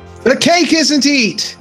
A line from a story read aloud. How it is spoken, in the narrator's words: she shouted